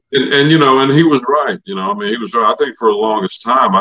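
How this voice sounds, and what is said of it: Usual voice. Nothing is said of it.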